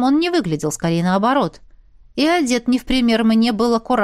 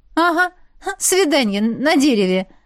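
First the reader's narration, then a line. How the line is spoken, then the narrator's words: Giggling. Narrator (Russian): Хихикнула я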